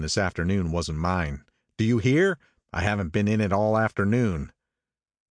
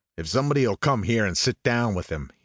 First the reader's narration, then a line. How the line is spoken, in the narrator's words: he snapped authoritatively